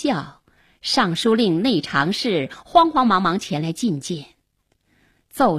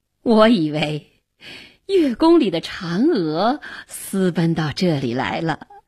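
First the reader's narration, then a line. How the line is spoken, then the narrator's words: Smiling. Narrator (Chinese): 元帝笑着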